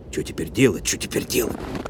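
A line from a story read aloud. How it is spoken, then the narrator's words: Muttering. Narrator (Russian): пробормотал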